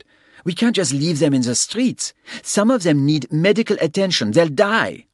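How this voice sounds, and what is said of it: Heavy French accent, woman. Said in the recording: “a middle-aged woman with a heavy French accent”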